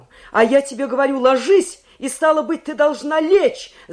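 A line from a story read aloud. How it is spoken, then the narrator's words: Furious shout. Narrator (Russian): закричал он озлобленно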